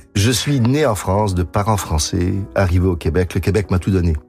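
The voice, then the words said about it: Québécois French accent. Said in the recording (French): “très québécois, euh, ça s'entend dans votre dans votre ah, accent”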